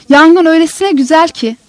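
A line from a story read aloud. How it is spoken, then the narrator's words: Shouted. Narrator (Turkish): diye bağıracak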